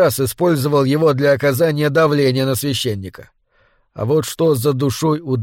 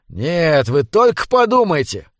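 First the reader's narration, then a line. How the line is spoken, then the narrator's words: Excited exclamation. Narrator (Russian): возбужденно воскликнул Эгерман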